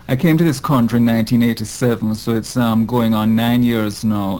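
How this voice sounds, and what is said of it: Jamaican accent. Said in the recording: “as people will soon be able to tell from my accent, I'm not a Native American. I'm originally from Jamaica”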